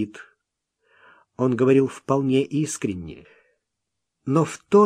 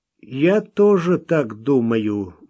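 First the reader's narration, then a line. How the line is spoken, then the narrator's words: Gloomy. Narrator (Russian): мрачно проговорил незнакомец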